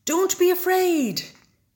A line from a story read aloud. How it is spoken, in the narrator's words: Big Bear shouted